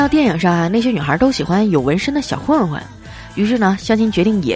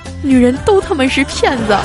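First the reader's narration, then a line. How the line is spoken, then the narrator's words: Crying. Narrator (Chinese): 肖金醒了以后哭着说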